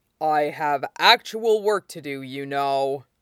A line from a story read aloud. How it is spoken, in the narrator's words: Ming Chui grumbles